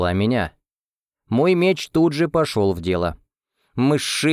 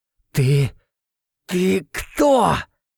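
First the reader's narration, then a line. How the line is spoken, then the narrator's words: Squeezed out, breathless. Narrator (Russian): Выдавил, едва переводя дыхание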